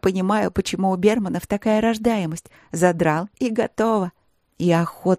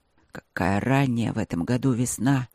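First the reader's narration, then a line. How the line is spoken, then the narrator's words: Growling speech. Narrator (Russian): проговорил Бермонт рычаще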